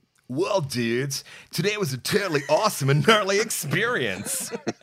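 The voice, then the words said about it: Valley surfer dude voice. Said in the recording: “the Valley Surf dude”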